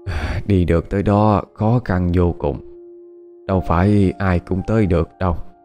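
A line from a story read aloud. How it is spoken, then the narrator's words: Elderly sighing. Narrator (Vietnamese): Cụ cố thở dài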